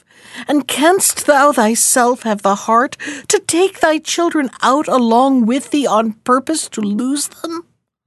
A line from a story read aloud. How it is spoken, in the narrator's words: cried his wife